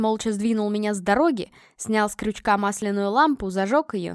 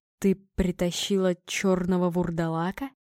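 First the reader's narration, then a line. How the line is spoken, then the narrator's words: Muffled question. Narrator (Russian): глухо переспросил он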